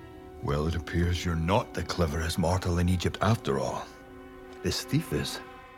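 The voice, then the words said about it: Scottish accent. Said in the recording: “with a Scottish accent”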